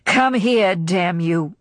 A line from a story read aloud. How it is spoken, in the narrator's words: he said roughly